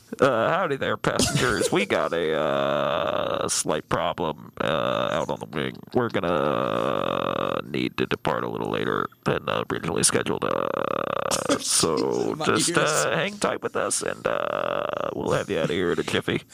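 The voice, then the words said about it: Airline pilot announcement voice. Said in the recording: “You sound like an airplane.”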